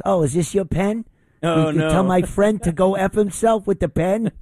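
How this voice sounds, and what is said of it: Imitates another person's voice. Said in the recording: “that's a great imitation”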